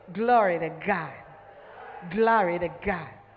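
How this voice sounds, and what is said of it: Put-on American accent. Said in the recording (French): “Même avec un accent américain.”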